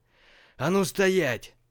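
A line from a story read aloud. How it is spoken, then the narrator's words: Yelling. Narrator (Russian): заорал Каматаян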